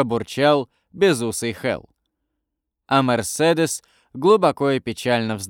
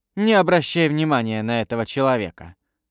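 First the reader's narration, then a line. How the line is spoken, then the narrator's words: Plain. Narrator (Russian): сказала она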